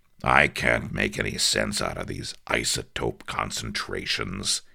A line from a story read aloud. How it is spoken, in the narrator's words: growled